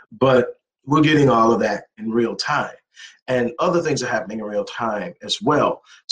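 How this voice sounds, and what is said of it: Hoarse, worn-out voice. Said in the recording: “My voice is about shot. It's been a long week.”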